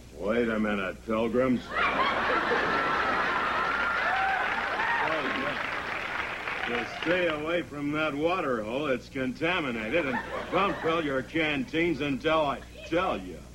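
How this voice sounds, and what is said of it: John Wayne impression. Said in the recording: “I think his voice is changing. ... do you have a frog in your throat? ... I have John Wayne in my throat”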